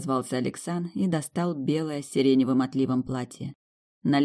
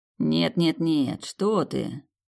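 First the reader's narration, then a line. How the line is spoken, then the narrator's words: Drawled. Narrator (Russian): протянул Александр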